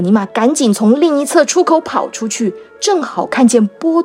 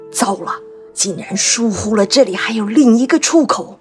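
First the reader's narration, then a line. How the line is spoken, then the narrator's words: Low voice. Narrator (Chinese): 他低声说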